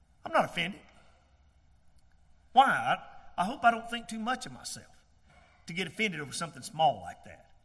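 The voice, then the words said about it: American Southern accent. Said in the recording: “you got that southern accent.”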